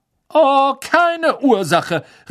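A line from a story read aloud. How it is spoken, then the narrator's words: Indignant call. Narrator (German): rief ihnen die fette Dame entrüstet nach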